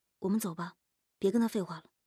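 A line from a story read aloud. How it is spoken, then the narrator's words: Calm low voice. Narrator (Chinese): 夜莺就比于志善镇定多了，低声说道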